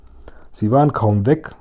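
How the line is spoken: Plain. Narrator (German): sagte Dimpfelmoser

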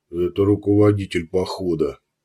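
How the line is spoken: Grumbled. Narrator (Russian): пробурчал Кусков

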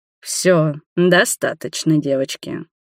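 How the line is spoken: Stern. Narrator (Russian): строго произнес Роберт

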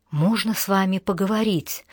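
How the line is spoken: Whisper in ear. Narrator (Russian): шепнула Алана ему на ухо

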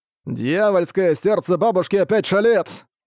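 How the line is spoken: Loud shouting. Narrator (Russian): Громко закричав одноногий

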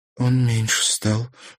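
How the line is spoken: Frightened speech. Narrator (Russian): проговорила Марьяна испуганно

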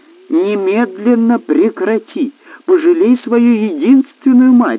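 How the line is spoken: Shouting. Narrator (Russian): закричала королева Роксана

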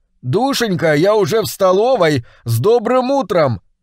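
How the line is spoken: Shout. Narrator (Russian): И я крикнул

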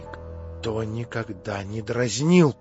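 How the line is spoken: Frightened mutter. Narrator (Russian): пробормотала в испуге Аделаида

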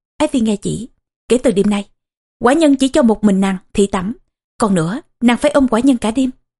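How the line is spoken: Stern royal voice. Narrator (Vietnamese): Huệ Vương nghiêm giọng nói

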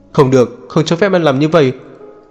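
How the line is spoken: Loud shout. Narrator (Vietnamese): Ông quát to

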